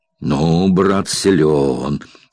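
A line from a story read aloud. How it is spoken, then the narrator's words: Muffled, as through cotton. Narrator (Russian): глухо, словно сквозь забившую уши вату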